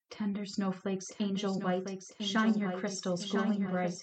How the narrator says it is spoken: Batilda whispered

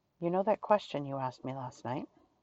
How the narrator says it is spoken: Sherlock whispered

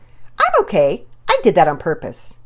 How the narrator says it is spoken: in her best acting voice, she said

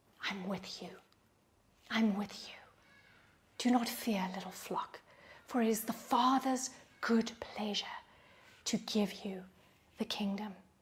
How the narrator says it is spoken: he's whispering

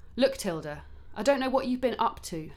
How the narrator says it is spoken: Karen said firmly now

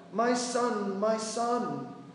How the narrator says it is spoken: Mother Sachi as she repeatedly called out

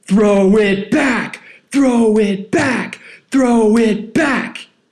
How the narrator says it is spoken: they are screaming

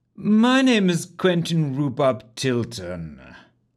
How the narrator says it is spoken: he said pompously

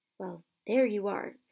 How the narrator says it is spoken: Harry said quietly

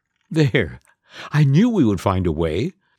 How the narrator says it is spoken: chuckled the fairy godmother

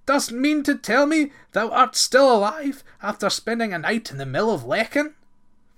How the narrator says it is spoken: he cried in astonishment

